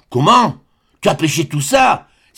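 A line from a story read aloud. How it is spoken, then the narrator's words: Astonished exclamation. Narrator (French): s'écria-t-il stupéfait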